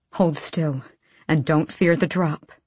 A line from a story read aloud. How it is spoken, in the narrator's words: Sartak breathed